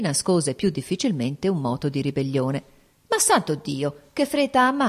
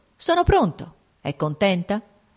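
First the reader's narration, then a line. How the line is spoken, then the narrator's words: Sick man, curt voice. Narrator (Italian): L'infermo riprese con voce breve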